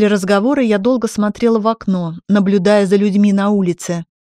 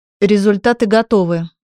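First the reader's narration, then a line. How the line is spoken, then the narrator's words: Calm with relief. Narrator (Russian): голос Андрея звучал спокойно, но я слышала в нем облегчение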